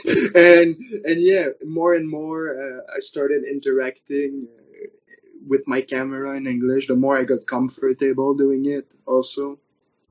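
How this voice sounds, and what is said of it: French-accented English. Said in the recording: “I still kind of use my French accent to pronounce words sometimes”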